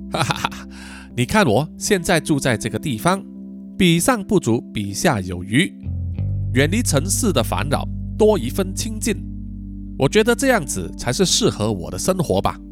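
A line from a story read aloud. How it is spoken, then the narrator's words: Laughing. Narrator (Chinese): 周丹奇笑着说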